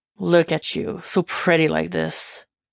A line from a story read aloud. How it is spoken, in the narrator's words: Jason murmurs